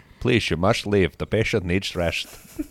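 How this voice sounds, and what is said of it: Put-on Dutch accent. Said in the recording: “This is my favorite of the accents. Is the doctor. ... Like, it's the most, like, Dutch.”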